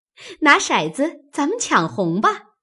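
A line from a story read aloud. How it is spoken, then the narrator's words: Laughing. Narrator (Chinese): 麝月笑道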